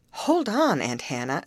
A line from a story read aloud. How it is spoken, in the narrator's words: exclaimed Mr